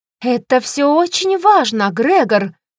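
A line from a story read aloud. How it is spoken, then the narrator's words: Angry young woman exclaiming. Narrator (Russian): Сердито воскликнула девушка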